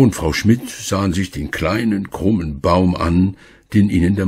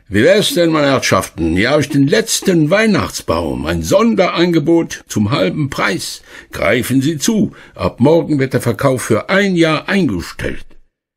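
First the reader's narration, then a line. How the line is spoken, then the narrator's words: Man calling out. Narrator (German): Ein Mann, der dort Weihnachtsbäume verkauft hatte, rief ihnen zu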